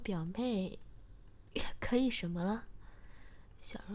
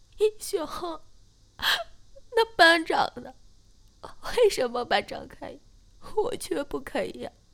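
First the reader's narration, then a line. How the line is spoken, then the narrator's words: Uneasy, guilty. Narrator (Chinese): 我马上有点心虚，然后说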